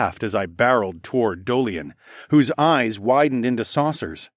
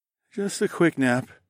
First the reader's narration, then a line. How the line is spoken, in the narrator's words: I murmured, as my eyelids got heavier and heavier